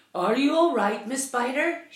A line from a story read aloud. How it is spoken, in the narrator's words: shouted the old green grasshopper